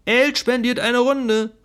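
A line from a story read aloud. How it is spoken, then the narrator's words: Called out. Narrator (German): rief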